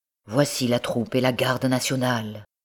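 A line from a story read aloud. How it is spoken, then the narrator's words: Grave voice. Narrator (French): reprit-il d'une voix grave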